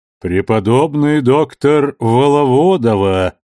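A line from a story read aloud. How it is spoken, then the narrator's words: Booming male voice. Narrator (Russian): прогудел мужской голос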